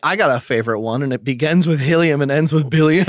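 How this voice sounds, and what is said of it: Bad put-on hillbilly accent. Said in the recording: “That was a really bad accent. I'm usually really good at that hillbilly accent, but my voice is fucked right now.”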